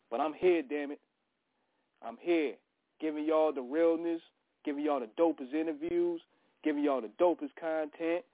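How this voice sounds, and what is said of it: Hoarse voice from illness. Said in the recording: “Pardon the voice a little bit. I'm still recovering from the flu”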